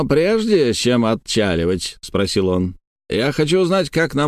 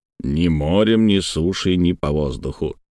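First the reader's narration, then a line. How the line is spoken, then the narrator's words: Calm reply. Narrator (Russian): спокойно ответил председатель Барбикин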